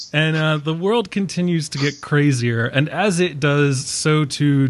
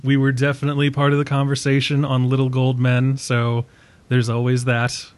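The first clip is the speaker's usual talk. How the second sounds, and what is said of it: Dry deadpan joking delivery. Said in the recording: “there was no semblance of sarcasm when you said that ... you said that totally deadpan ... My humor is a dry humor.”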